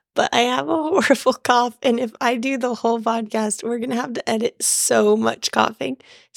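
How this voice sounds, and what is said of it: Hoarse voice recovering from illness. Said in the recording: “sick for a week and lost her voice. Is starting to come back ... you can all hear what my voice sounds like”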